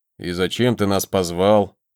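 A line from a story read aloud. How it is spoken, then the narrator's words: Grumble. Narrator (Russian): проворчал Виконт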